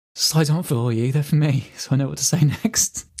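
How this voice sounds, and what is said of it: Teacherly voice. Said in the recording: “in my best teacherly voice”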